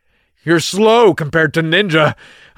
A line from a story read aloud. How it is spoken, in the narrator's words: I shouted at him as I ran past to get as much distance between us as I could